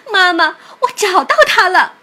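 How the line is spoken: Loud shout. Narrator (Chinese): 艾琳大喊道

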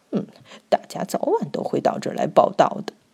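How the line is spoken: Muttering to itself. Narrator (Chinese): 两块被啃光的肉骨头喃喃自语

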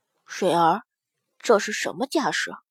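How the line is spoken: Lowered voice. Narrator (Chinese): 压低了声音

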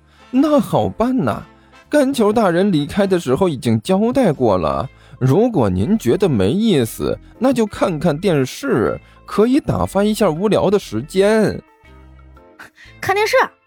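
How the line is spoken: Cheerful, smiling. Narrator (Chinese): 刘阿八笑眯眯的开口说道

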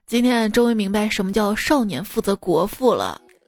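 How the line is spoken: Sighing remark. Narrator (Chinese): 我爸…感叹道

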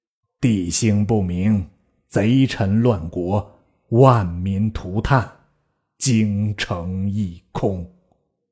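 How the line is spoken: Sighing lament. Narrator (Chinese): 兼叹曰

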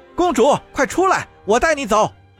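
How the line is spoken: Shouted from a car. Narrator (Chinese): 他从车里喊道

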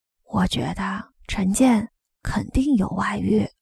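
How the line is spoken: Lowered voice. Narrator (Chinese): 王艺兴压低了声音说

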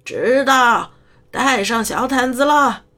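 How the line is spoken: Distant shout. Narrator (Chinese): 姨妈在楼里某处大喊

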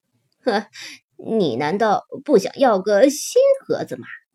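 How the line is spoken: Mocking. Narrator (Chinese): 塔克用嘲笑的口气说

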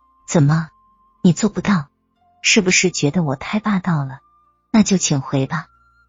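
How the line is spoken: Flat, cool. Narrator (Chinese): 田芳清淡淡的说道

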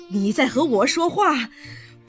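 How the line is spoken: Breathless old woman. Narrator (Chinese): 贾母气喘吁吁的说

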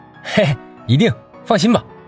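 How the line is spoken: Fake coaxing smile. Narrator (Chinese): 杨帆又拿出哄骗女孩的招牌式假笑

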